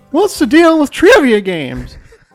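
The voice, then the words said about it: Poor imitation of another person's voice. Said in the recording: “That's terrible, isn't it? I'm not good at impersonations. ... my spot-on Jerry Seinfeld impersonation”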